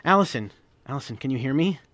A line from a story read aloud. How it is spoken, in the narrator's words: She groaned